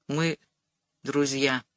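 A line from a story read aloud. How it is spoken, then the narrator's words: Quiet. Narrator (Russian): сказал он тихо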